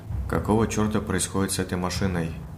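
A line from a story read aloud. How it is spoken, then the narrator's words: Tired. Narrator (Russian): Устало произнес Егор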